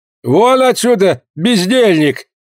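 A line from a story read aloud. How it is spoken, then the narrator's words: Indignant shout. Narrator (Russian): крикнул, наконец, возмущенный Шанто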